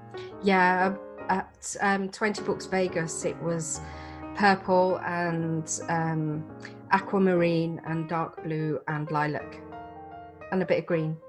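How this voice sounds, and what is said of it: English Midlands accent. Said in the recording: “I sense this accent. You don't sound like me, so you must live somewhere else... I'm in the UK, in England, in Solihull, which is in the Midlands.”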